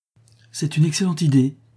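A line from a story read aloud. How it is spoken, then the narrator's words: Exclamation. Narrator (French): s'écria Lucie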